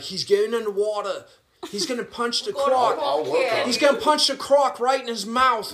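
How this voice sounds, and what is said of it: Bad put-on Australian accent. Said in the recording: “Can you do an Aussie accent? ... my accent is fucking terrible”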